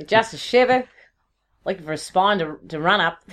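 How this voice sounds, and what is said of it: Put-on Australian accent. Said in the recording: “if you say an Australian accent, it loses its poetry... It doesn't quite work”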